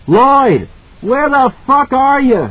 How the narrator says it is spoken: he screamed

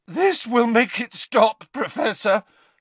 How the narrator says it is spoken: Harry said, his voice cracking

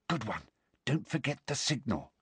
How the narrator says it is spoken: Hermione whispered

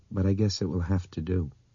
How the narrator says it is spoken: said in a slightly unsteady voice

